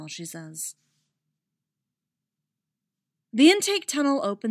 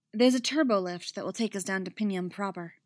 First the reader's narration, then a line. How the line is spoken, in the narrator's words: she says